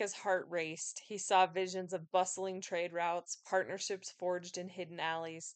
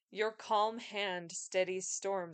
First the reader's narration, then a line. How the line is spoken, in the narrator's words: Elias said